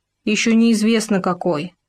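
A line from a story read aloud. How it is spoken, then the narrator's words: Grumbling. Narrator (Russian): пробурчал Суслик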